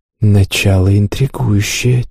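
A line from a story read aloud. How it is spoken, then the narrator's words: Quiet. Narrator (Russian): тихо проговорила спутница любопытного посетителя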